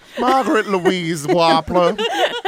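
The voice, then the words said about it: Put-on Southern American accent. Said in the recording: “Say it with a southern accent”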